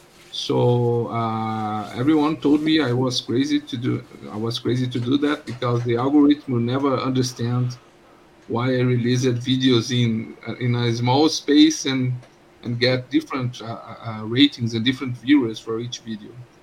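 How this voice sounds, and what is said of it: Foreign accent. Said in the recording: “my accent is something that drives them away from the videos ... it seems like I'm a foreign”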